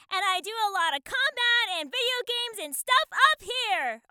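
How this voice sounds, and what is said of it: Yelling loudly. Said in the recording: “This is how I sound when I'm yelling!”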